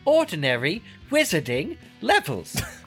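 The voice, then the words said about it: Umbridge impression. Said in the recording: “say it like Umbridge, though, in the movie ... your impersonation of Umbridge was very, very good”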